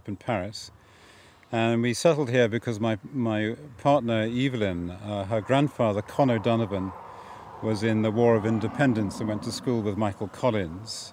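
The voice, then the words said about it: English accent. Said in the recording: “having an English accent”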